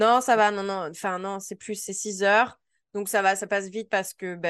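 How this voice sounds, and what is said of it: Usual voice. Nothing is said of it.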